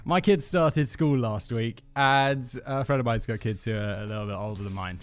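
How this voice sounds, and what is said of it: Congested voice from a cold. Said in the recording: “I have a cold.”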